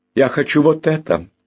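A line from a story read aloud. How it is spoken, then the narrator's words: Joyful declaration. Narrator (Russian): радостно заявил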